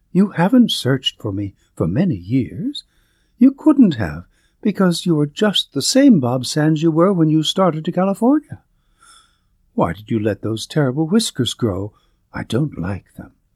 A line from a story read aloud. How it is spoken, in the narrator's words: suddenly exclaimed